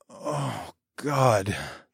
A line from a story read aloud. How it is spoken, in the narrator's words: I moaned